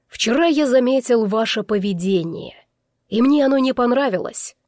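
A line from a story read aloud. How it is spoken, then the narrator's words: Menacing father. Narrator (Russian): грозно начал отец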